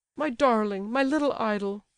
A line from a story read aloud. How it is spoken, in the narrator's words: cried the general